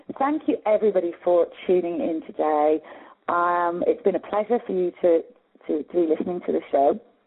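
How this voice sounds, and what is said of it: Slightly hoarse voice. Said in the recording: “I'm a bit hoarse now”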